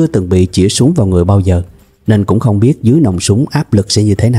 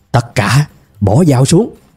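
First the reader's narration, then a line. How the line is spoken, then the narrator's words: Shouting. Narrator (Vietnamese): Hắn tiếp tục hét tiếp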